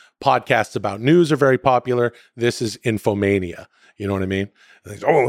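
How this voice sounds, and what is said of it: Usual voice. Nothing is said of it.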